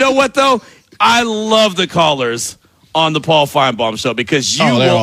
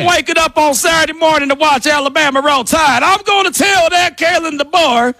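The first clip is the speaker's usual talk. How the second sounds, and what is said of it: Put-on southern accent. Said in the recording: “Out here speaking with a southern accent.”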